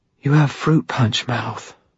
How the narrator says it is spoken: she whispered

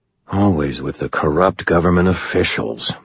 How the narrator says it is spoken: muttered the wizard from behind me

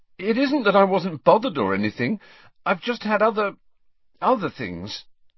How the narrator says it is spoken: he said, a little desperately

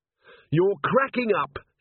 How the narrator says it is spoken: she shouted

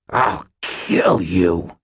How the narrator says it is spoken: hissed Aristides

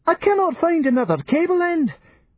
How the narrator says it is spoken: wailed Dr

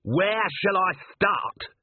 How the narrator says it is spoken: he yelled

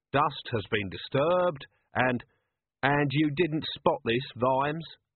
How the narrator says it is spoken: Vimes sighed

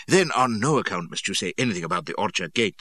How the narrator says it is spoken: says he

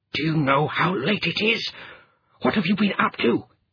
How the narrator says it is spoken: he hissed

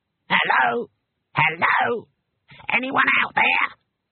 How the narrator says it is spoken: It was a small and squeaky voice

